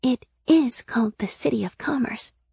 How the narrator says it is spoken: Sybil whispered in my ear

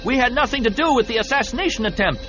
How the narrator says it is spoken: someone in one of the other boats shouted

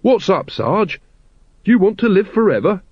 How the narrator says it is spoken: Carrot slapped him cheerfully on the back, nearly pushing him over, and said

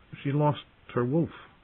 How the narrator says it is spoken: he said weakly, remembering the day when 4 of his father's guardsmen had returned from the south with Lady's bones

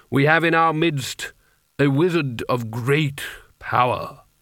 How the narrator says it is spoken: he intoned

